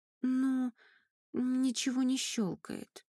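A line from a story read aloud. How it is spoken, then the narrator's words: Quiet answer. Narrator (Russian): тихо ответила Айка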